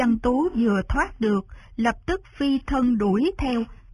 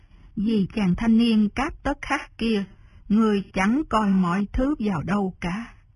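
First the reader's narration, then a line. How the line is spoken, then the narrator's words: Soft resigned sigh. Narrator (Vietnamese): Kế Lão đành thở dài một tiếng, khẽ nói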